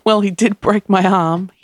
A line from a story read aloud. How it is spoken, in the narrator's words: he said between giggles